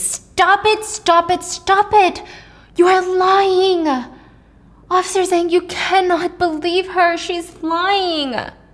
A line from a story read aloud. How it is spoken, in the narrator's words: Henry screamed